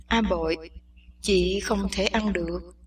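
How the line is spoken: Soft, quiet. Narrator (Vietnamese): Tuyết Hồng nói khẽ

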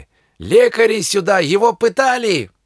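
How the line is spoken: Teachers yelling. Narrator (Russian): ближайшие преподаватели заорали

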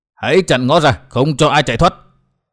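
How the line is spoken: Loud barked command. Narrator (Vietnamese): Người mang mặt nạ quát to để ra lệnh

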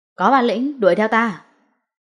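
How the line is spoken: Loud shout. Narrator (Vietnamese): Lâm Hiểu Phong miệng hét lớn

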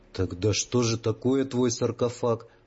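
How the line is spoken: Plain. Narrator (Russian): спросил Ваня

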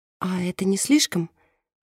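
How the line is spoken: Timid question. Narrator (Russian): робко спрашивает Мерседес

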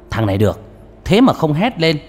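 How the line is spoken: Loud laugh. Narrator (Vietnamese): Ông mổ não cười to một tiếng

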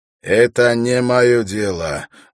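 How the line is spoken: Rude, male. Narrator (Russian): грубо заявил он

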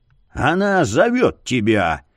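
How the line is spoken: Barked, spitting blood. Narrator (Russian): гаркнул он, сплюнув кровавую слюну

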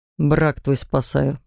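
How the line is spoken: Muttered to himself. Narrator (Russian): буркнул про себя

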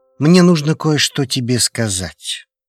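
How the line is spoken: Sudden, very serious tone. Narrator (Russian): внезапно произнес друг таким серьезным тоном

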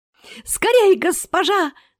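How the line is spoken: Shrill squeal. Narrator (Russian): взвизгнул Херик

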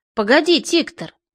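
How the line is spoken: Very calm. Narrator (Russian): заметил очень спокойно

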